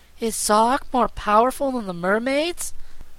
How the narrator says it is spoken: asked Trot anxiously

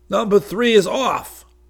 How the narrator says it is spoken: Doug called hoarsely

